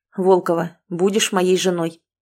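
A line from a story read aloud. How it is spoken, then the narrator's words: Hoarse but firm declaration. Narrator (Russian): Зайцев, севшим, но таким твердым голосом, решительно заявил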